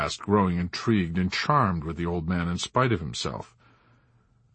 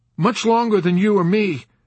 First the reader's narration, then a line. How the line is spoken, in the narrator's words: Nately blurted out lamely